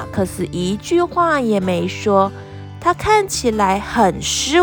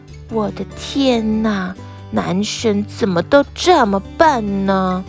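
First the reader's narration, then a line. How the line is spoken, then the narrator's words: Sighing. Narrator (Chinese): 萨奇一边叹气一边说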